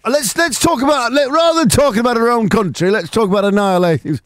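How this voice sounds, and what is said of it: Put-on northern English accent. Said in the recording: “Why am I doing a northern accent?”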